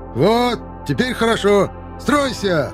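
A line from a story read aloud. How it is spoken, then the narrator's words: Shouted with manic delight. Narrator (Russian): Выкрикнул Николай Панасович с каким-то нездоровым восторгом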